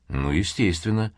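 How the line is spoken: Grumble. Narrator (Russian): буркнул Тейра

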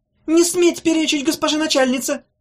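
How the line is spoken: Young man squealing. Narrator (Russian): взвизгнул шоколадный юноша

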